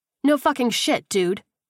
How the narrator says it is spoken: the redhead snapped

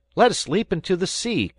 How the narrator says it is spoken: cried Fritz

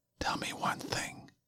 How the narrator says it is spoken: I whispered

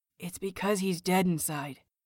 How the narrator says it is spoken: Peachy whispers

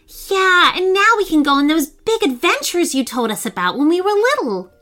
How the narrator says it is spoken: James said happily

